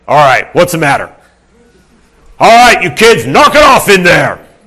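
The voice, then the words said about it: Lowered, booming stern dad voice. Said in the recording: “my dad voice ... you lower your voice, you get the boom”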